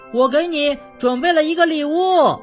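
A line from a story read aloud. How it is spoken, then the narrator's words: Loud reply. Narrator (Chinese): 快乐先生大声回答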